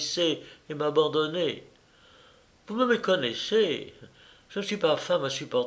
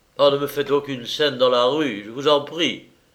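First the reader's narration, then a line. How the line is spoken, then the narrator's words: Baron, curt. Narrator (French): fit le baron d'un ton bref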